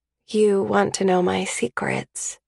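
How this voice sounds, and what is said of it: Low, quiet voice. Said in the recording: “I say in a low voice”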